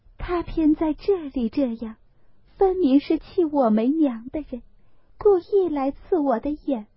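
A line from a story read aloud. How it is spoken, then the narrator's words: Tearful sighing. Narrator (Chinese): 黛玉流泪叹道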